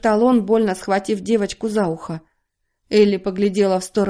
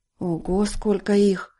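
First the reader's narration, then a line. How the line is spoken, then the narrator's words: Shivering mutter. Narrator (Russian): пробормотал Дональд, поеживаясь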